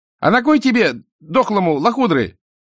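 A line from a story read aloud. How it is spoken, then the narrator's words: Boy shouting from behind. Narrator (Russian): крикнул сзади неделикатный отрок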